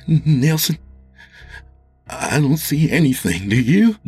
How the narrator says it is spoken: Jimmy said nervously

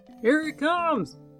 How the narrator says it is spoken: shouted the spying man

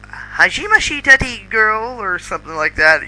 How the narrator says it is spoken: she said happily

